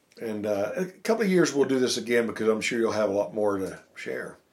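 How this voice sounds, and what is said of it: Worn-out, nearly lost voice. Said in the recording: “my voice is about gone”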